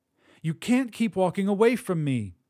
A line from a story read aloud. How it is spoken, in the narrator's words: screamed